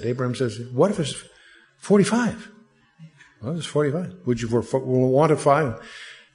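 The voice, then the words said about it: Put-on Jewish accent. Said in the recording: “you have to almost do this with a Jewish accent.”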